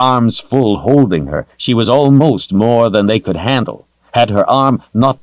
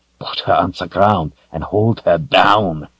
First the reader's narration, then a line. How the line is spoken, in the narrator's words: he growled